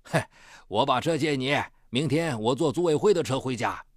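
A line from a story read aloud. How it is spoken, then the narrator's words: Laughing. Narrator (Chinese): 院长笑道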